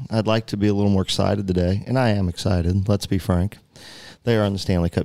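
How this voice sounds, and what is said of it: Flat monotone delivery. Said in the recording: “I'm going with my monotone.”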